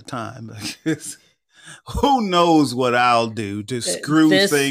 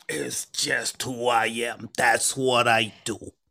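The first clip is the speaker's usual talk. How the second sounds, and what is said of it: Unidentified put-on accent. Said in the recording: “I don't know what that accent is, but okay.”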